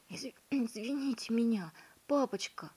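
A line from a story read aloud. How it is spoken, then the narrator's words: Whispering. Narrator (Russian): шептал Гвоздик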